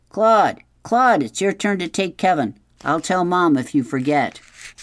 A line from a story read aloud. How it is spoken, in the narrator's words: Steve yelled